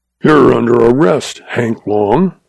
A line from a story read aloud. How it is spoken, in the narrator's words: he snarled